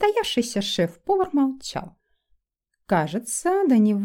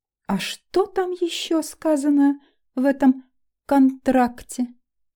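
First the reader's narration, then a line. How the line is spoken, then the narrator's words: Purring tone. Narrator (Russian): мурлыкающим ноткам в голосе Норберта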